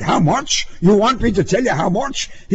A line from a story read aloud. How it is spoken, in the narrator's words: yelled, red in the face